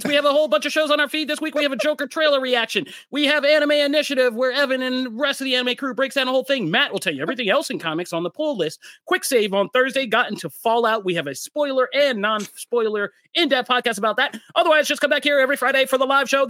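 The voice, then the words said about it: Rapid-fire Micro Machines man impression. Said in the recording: “my Micro Machines impersonation”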